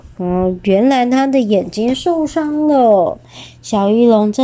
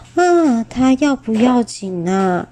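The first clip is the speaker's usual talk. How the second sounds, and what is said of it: Quiet, soft question. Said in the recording (Chinese): “小声的问说”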